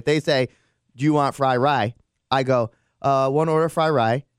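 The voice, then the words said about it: Put-on accent imitating restaurant staff. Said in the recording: “I always adapt the accent of who it is”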